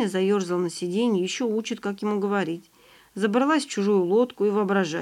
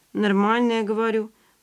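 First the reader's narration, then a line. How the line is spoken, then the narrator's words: Grumbling, restrained irritation. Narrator (Russian): пробурчал Ваня, сдерживая раздражение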